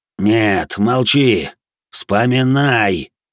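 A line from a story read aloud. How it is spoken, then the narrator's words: Growled. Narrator (Russian): прорычал мой голос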